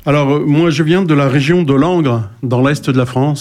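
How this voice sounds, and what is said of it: Slightly clipped non-Parisian French accent. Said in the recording (French): “il a un accent un peu pointu, pas parisien”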